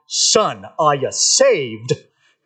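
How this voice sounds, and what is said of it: Caricatured Southern preacher accent. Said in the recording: “caricature evangelists and pastors. You know, give them a good southern accent.”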